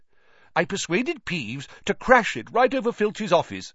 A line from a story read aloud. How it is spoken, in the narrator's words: said Nick eagerly